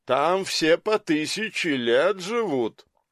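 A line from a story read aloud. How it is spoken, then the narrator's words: Smirking, then laughing. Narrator (Russian): Усмехнулся, а затем и рассмеялся он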